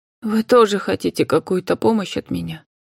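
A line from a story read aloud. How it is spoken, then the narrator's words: Dejected woman's voice. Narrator (Russian): упавшим голосом произнесла женщина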